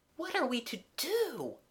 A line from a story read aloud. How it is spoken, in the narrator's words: whispered Mabel, awestruck